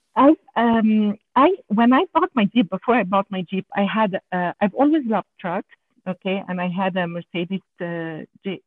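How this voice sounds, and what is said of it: French Canadian accent in English. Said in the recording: “I'm sorry about my accent because I'm a French Canadian ... I have an accent in French and in English”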